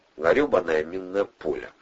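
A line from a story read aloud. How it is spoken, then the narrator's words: Mutter. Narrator (Russian): пробормотал Олег Петрович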